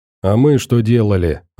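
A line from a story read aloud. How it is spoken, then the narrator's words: Irritated. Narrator (Russian): раздраженно сказал Рекун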